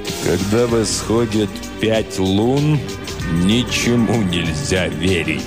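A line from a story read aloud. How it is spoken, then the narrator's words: Sepulchral voice. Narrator (Russian): сказал суперинтендант Флинт за могильным голосом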